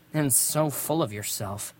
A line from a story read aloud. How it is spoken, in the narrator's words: I mumbled so he couldn't hear me